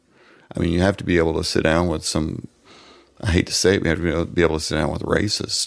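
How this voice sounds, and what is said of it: Southern American accent. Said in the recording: “middle-aged Southern white guys ... I've got the right accent”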